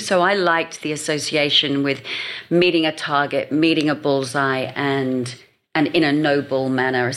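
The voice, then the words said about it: English accent. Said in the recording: “I can hear that English accent there”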